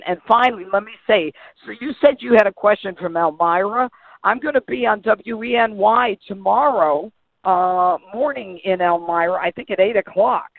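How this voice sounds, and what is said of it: Strained, failing voice. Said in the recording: “my voice is going.”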